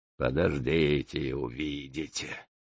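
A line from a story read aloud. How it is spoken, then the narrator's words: Grumbled mutter. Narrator (Russian): буркнул второй помощник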